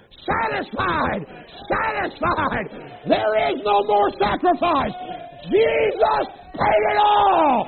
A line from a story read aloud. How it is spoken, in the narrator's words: that brazen altar yells